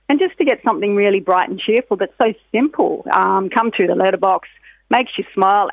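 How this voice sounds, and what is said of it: Australian accent. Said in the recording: “accent, I love the Australian accent”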